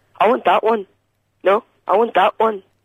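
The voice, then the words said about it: Imitates another person's voice. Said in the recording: “this is my Eamon Holmes impression”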